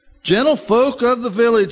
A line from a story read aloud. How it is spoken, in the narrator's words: he shouted